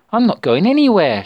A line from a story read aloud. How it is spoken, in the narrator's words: shrieked Natalia